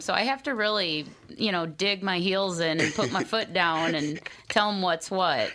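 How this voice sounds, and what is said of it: Minnesota accent. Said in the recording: “You got that Minnesota accent.”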